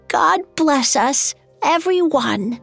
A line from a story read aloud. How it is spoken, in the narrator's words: His hand shook as he raised the cup and exclaimed in a frail voice